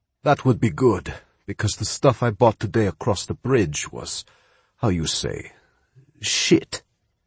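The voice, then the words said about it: Heavy Spanish accent. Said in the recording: “he said with a very heavy Spanish accent.”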